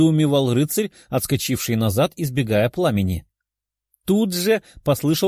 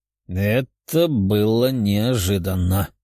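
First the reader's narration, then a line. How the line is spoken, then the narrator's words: Hoarse. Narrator (Russian): прохрипел Тео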